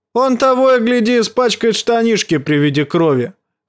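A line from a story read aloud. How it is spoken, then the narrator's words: Shout. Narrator (Russian): крикнул Чет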